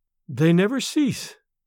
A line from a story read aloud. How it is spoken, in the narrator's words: she replied sadly